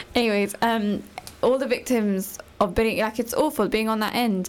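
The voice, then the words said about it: Strained, worn-out, emotional voice. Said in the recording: “my voice is like finished... we're getting a bit emotional”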